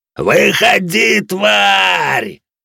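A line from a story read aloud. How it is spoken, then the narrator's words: Roared by raider leader. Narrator (Russian): взревел лидер рейдеров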